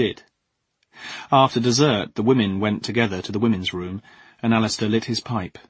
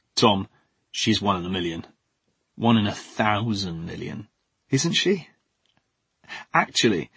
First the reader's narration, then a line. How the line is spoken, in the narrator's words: dropped his voice